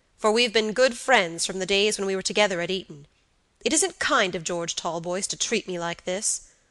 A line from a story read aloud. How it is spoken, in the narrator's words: said Robert gravely